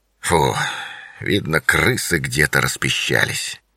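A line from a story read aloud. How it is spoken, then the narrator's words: Grumbled. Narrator (Russian): пробурчал он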